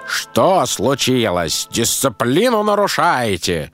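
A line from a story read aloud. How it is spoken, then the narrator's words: Angry shout. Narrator (Russian): Со злостью крикнул он на волка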